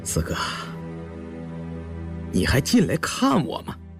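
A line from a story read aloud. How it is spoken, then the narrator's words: On the verge of tears. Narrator (Chinese): 胤祥一副欲哭无泪的样子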